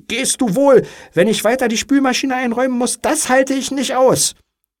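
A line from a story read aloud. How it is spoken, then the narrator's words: Spiteful scream. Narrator (German): Da kam die Bosheit über sie und sie schrie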